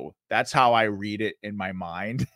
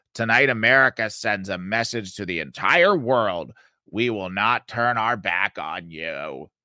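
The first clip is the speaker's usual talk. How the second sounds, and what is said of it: Chuck Schumer impression. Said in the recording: “do my Schumer voice, which I realize some of you think that it's probably not that good”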